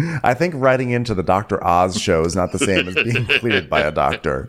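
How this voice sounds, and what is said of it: Usual voice. Nothing is said of it.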